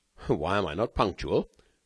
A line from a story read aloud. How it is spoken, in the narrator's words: asked Velmont